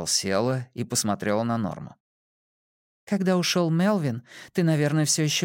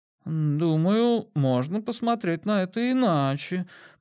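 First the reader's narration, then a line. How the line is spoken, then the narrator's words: Drawling. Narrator (Russian): протянула Хитер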